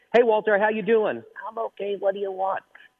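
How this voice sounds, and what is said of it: Ventriloquist distant voice, sounds far away. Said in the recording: “it sounded like it was far away ... That was me throwing my voice. That was me doing the distant voice.”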